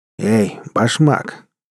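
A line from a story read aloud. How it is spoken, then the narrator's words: Rude drunken call from afar. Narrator (Russian): грубо окликнул меня нетрезвый голос из темного угла бара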